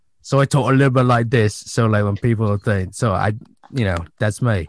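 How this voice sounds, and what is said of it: Deliberately bad imitation of an action star. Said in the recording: “I do a really bad Jason Statham imitation. So that is my character voice. ... I do my shitty or crappy Jason Statham voice”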